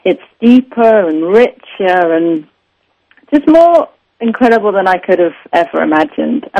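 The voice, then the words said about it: English accent, romantic sounding. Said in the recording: “With your English accent, when you say deeper and richer, it really does sound deeper and richer. It's very, very romantic sounding.”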